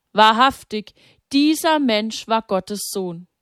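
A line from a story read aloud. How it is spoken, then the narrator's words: Crying out. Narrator (German): Er sank zu Boden und rief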